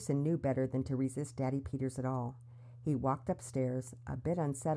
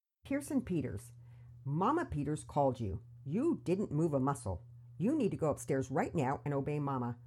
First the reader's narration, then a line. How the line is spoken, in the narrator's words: Daddy Peters said sternly